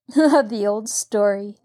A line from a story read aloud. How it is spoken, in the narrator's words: Nancy laughed